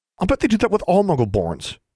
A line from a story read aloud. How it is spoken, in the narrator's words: she said hotly